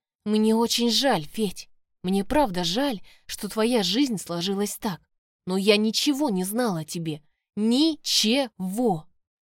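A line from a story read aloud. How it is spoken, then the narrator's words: Trying firm, voice trembling. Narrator (Russian): Пытаюсь говорить твердым голосом, только внутренняя дрожь все равно меняет его на пару тонов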